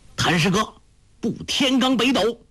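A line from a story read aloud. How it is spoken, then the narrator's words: Shouted. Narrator (Chinese): 丘处机叫道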